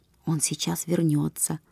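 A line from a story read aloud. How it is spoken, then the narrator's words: Whisper. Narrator (Russian): шепнул Наташа Гастон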